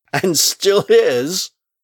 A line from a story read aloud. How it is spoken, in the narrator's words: He laughed as he wrote